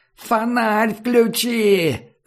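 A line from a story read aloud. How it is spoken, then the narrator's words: Yelling. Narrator (Russian): заорал Комар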